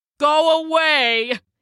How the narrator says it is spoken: He shouted

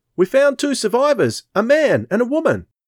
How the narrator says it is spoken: a breathless centurion ran up, shouting

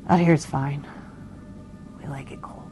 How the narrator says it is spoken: muttered

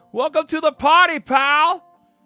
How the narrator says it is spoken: John yelled with delight

